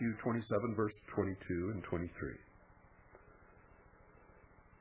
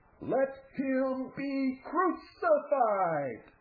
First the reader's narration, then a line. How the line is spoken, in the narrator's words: the crowd shouted